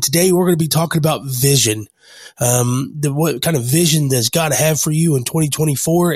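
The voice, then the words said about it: Rough voice, sounds sick. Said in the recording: “I know my voice sounds awful ... I'm getting over a sickness”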